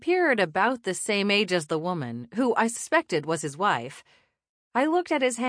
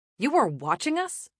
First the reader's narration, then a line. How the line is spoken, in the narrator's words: snapped